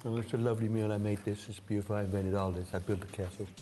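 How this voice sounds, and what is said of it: Donald Trump impression. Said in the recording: “He did the impression ... And Donald Trump ... It's a good impression. I was blown away by it.”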